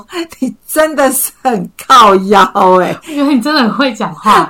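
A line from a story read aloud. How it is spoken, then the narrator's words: Laughing. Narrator (Chinese): 笑出来说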